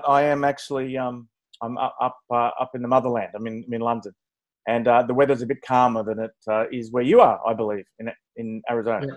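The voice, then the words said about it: Antipodean accent. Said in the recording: “My accents are Antipodean”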